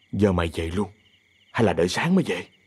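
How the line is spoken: Cold yet relieved. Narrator (Vietnamese): Minh nói với giọng lạnh lùng nhưng có vẻ nhẹ nhõm

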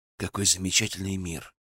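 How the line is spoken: Muttered. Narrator (Russian): пробормотал тунелонец

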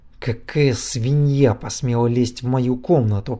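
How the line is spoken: Growling. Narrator (Russian): прорычал Влад

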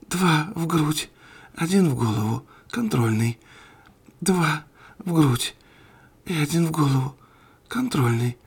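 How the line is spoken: Whispering to herself. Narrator (Russian): шептала она себе

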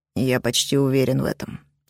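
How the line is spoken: Cold. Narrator (Russian): холодно отозвался Кроу

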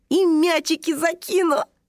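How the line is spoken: Little dragon giggling. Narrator (Russian): хихикнул дракоша

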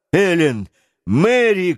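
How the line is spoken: Shout. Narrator (Russian): крикнул Гленарван

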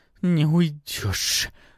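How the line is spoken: Angry hiss. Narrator (Russian): раздается мне в спину гневное шипение

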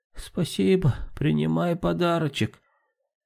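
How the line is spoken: Harsh crunching old woman's voice. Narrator (Russian): совсем не слабым, а каким-то жестким хрустящим голосом произнесла старуха

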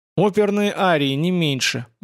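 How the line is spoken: Snide remark. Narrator (Russian): бросила Саша ехидно

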